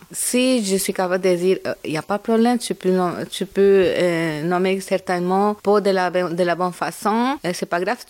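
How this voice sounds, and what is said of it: Marked Latino accent in French. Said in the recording (French): “j'ai un bon accent, j'ai un accent assez marqué, je suis latino... un très joli accent”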